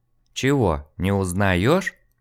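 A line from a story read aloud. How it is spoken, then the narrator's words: Uncertain, worried. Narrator (Russian): Женщина, неуверенно обеспокоенно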